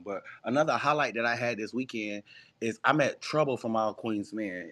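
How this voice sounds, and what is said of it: Hoarse, nearly lost voice. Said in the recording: “my voice is still gone”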